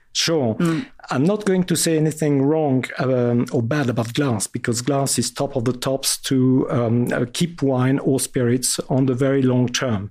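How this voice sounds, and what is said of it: Strong French accent. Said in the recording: “my very French accent.”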